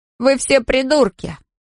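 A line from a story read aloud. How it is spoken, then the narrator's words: Laughing. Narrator (Russian): Джей Ди рассмеялся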